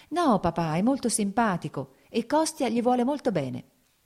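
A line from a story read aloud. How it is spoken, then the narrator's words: Smiling, pleading. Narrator (Italian): disse sorridendo Kitty, come a supplicarlo di qualcosa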